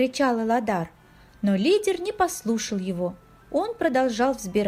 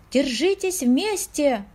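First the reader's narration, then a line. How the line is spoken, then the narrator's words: Shout. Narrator (Russian): прокричал Эладар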